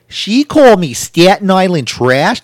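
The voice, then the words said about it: Poor imitation of New York accent. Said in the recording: “That's a horrible New York accent”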